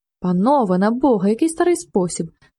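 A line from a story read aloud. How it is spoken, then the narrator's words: Cry of stifled horror. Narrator (Ukrainian): скрикнув з удавленим жахом один із кавалерів, Рудковський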